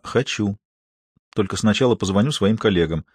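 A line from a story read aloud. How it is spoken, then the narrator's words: Quiet. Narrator (Russian): Маша тихо произнесла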